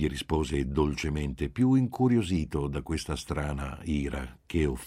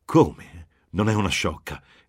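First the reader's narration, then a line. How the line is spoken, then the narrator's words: Irritated, half-surprised exclamation. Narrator (Italian): esclamò irritata e quasi sorpresa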